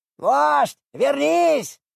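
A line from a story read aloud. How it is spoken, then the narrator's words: Group shouting. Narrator (Russian): кричали они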